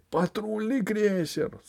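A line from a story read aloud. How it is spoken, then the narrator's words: Yelling. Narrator (Russian): завопил узурпатор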